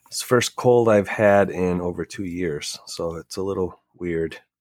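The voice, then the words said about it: Congested, messed-up sick voice. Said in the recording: “I am fucking sick. If you can't hear this, I apologize. My voice is all messed up. My head is stuffed.”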